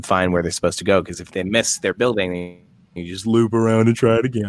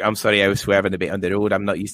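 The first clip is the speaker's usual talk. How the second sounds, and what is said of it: Put-on Scottish accent. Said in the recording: “I just jumped into a Scottish accent ... how did it sound?”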